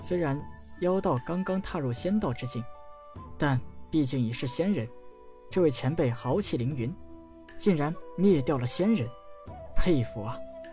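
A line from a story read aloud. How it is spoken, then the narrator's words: Sighing with admiration. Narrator (Chinese): 陈南叹了一口气，感叹道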